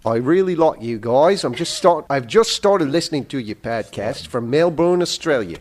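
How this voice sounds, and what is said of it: Put-on Australian accent. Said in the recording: “I have to remember how to do my Australian accent.”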